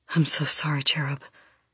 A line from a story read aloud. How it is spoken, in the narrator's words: whispers, his voice breaking